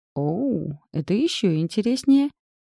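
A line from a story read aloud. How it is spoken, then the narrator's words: Giggle. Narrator (Russian): хихикнула она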